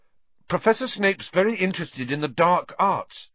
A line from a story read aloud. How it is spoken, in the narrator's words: he blurted out